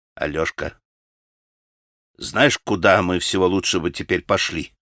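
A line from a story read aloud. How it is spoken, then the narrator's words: Timid, ingratiating. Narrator (Russian): выговорил он, наконец, робко и искательно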